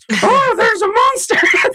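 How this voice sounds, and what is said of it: Grover muppet character voice. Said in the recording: “do a Grover voice ... So good ... perfect”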